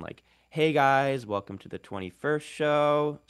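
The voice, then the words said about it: Lifestyle influencer voice with uptalk. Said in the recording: “There's a lifestyle influencer accent ... sort of that uptalk characteristic of like Valley Girl English”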